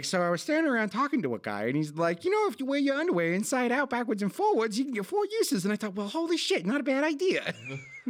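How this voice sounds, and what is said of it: Poor high-pitched New York accent impression. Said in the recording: “my terrible Stanley impression ... I don't know what the fuck accent that was, but it wasn't Stan ... he's got that like high-pitched kind of New York accent”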